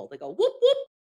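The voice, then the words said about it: Bigfoot whooping impression. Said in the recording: “That was my Bigfoot impression.”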